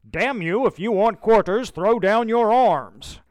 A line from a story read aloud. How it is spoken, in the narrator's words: He yells